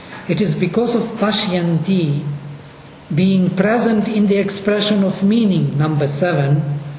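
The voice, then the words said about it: Russian-accented English. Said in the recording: “my Russian English accent”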